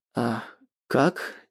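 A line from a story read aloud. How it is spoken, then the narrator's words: Uncertain question. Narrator (Russian): неуверенно спрашиваю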